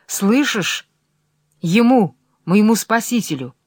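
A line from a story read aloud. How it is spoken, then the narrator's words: Commanding. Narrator (Russian): говорит она повелительным голосом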